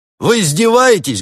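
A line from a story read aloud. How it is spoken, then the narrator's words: Barking. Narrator (Russian): гаркнул делец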